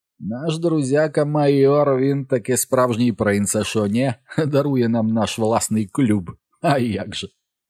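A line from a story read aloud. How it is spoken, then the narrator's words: Bitter laugh. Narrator (Ukrainian): Карл Рун тоді був розсміявся так гірко, і сказав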